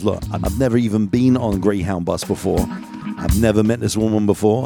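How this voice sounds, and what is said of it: London English accent. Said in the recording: “I'm from London originally ... my accent”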